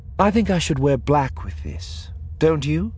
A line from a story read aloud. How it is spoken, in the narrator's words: Lando sighed